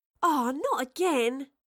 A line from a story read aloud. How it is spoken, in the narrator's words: Astrid groaned